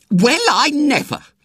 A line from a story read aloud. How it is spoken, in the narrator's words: said Aunt Maggie indignantly